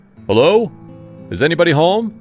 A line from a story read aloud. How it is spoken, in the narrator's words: hollered